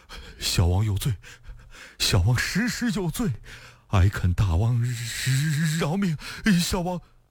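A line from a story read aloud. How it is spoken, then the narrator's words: Trembling, frightened. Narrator (Chinese): 福王 声音哆哆嗦嗦地说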